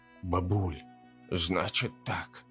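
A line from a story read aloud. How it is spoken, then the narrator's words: Hushed half-whispered hiss. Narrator (Russian): полушепотом зашипела она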